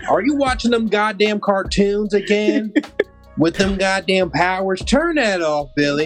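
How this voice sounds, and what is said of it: Put-on American country accent. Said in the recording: “a country accent”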